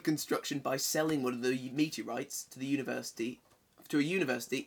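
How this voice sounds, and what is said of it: Usual voice. Nothing is said of it.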